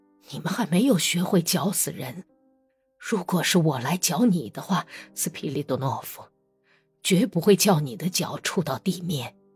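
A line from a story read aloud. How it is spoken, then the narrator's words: Deep breath, low voice. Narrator (Chinese): 他深深地吸了口气，声音不大地说道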